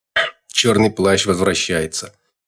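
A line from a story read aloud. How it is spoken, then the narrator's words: Ironic snort. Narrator (Russian): с иронией хмыкнул кто-то из добровольных истопников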